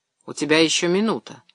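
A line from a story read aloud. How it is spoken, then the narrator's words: Calm. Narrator (Russian): спокойно сказал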